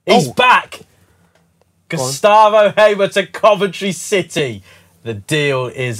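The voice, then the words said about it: Radiant, over-excited announcing tone. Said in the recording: “Why are you saying that with such a radiant tone of voice? ... Just do it normally.”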